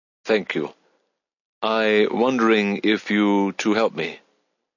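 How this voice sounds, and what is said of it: Thick German accent, broken English. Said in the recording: “affected his Spanish with a thick German accent ... continued in broken English”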